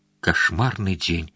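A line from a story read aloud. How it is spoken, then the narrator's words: Sighing. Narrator (Russian): вздохнула она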